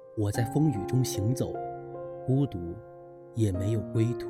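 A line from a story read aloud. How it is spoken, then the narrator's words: Dazed murmuring. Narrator (Chinese): 神情有些呆滞的李狗蛋儿正在喃喃道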